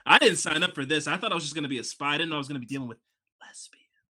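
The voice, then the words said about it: Soft whispery ASMR-style voice. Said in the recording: “whisper the word to the camera ... You have a very good ASMR voice”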